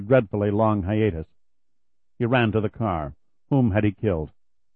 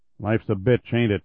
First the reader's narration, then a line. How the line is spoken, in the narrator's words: Kelly said coldly